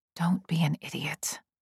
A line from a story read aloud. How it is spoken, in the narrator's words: I mutter